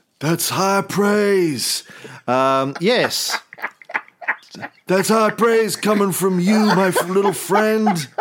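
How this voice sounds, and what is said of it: Andy Samberg's Nicolas Cage impression. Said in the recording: “Andy Samberg doing his Nicolas Cage impersonation on Saturday Night Live”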